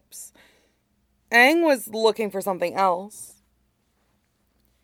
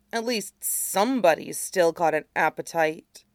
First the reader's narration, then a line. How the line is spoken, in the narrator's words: Aang muttered